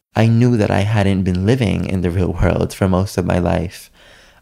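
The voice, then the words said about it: New York accent. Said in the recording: “I have my New York accent.”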